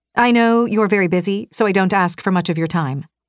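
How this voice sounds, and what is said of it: Low, brusque female character voice. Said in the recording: “Her voice was low and brusque, the kind of voice that was impossible not to listen to.”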